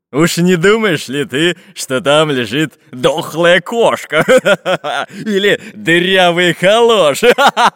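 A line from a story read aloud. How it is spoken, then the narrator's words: Laughing. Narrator (Russian): Засмеялся главарь шайки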